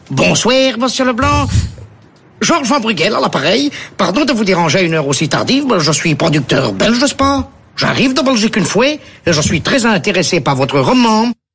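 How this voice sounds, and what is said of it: Put-on Belgian French accent. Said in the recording (French): “le même accent belge”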